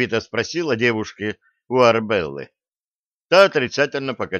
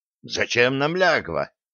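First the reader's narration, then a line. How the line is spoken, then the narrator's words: Angry question. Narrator (Russian): сердито спросил штурман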